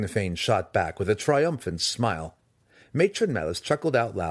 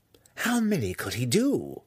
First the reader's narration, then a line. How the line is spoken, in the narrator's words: Malice breathed, obviously impressed, in spite of herself